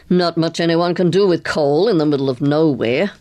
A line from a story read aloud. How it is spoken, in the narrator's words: growled Carstairs